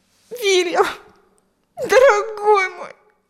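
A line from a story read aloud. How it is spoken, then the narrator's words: Sobbing. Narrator (Russian): рыдала она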